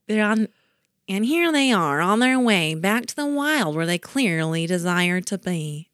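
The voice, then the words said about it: Nasal put-on Jersey accent. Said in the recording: “I was working on my Jersey accent earlier ... It was a good accent ... They talk in their nose. That's what I was trying to talk. Like it's like a valley girl who like has a nose cold.”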